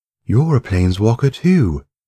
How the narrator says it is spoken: guessed excitedly

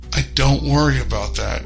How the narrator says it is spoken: I grunt through rising pain

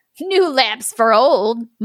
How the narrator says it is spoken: mocked the crowd

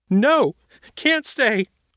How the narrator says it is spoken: the girl shouted

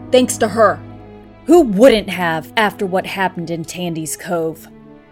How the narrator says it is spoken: Kevin shouted

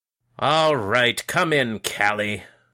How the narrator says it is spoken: grumbled

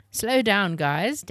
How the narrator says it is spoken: Dad laughed

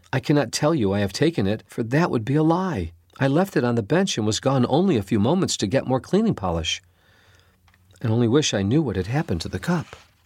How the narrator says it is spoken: Phoebe only cried and said

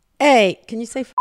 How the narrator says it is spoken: menacing-looking guys in it, yelled out

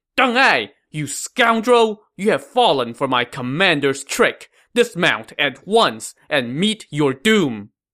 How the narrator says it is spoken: the Shu general Fu Qian, who shouted

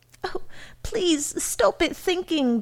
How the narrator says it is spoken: begged Mrs

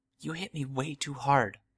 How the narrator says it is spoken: I murmured

